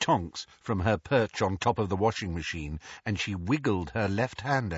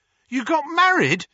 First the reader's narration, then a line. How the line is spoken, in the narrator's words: Harry yelped